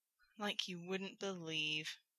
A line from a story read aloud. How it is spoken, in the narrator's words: Rodney said in a defeated voice